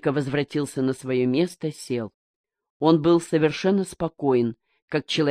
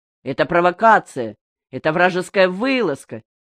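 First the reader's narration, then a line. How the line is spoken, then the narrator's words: Shouting. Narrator (Russian): кричал Мигдя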